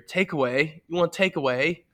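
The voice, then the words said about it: Rough put-on British accent. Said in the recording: “Was that a? ... British ... accent? ... That was British, kind of, but still.”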